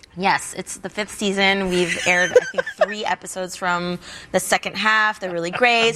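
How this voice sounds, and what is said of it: Valley Girl accent. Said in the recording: “Isn't that like a Valley Girl accent?”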